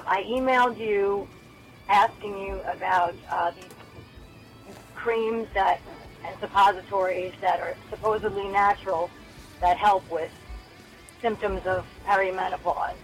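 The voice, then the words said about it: Rough, congested-sounding voice. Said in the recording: “Pardon my voice. I have a terrible cold.”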